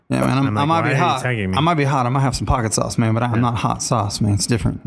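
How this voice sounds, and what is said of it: Oaky Southern Bill Clinton impression. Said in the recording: “I went Bill Clinton, just slightly Bill Clinton ... the kind of oaky accent ... the oaky accent is becoming more and more Bill Clinton”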